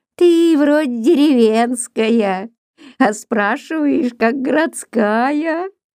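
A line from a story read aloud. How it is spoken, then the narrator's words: Old woman's dry little laugh. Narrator (Russian): Бабка Наталья рассмеялась мелконьким сухим смехом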